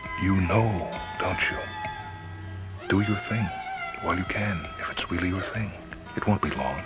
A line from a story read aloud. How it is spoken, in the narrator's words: she whispered